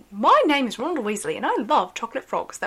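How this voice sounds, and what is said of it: Put-on British accent. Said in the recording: “one of the things I used to say to, like, train myself to do a British accent”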